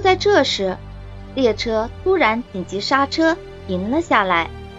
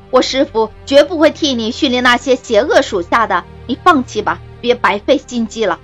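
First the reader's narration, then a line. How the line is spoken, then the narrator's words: Loud command. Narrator (Chinese): 金刚狼大声命令道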